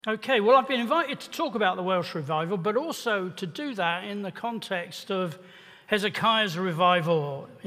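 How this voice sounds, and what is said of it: English accent. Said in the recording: “my accent's very English”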